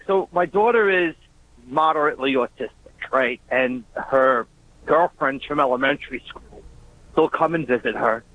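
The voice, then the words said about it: Long Island accent. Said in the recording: “We recognize that Long Island-esque accent... Immediately?... Right away... It's all like broken English”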